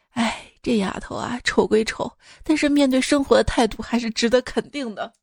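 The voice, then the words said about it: Quiet, murmured gossiping remark. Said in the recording (Chinese): “小声议论”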